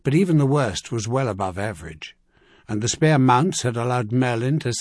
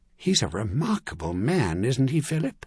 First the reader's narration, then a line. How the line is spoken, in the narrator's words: she asked quietly